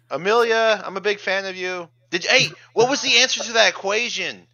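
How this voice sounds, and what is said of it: Loud, yelling voice. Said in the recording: “You are pretty loud. Stop yelling,”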